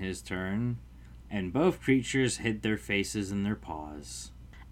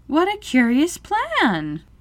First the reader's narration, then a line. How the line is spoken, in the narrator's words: exclaimed Alice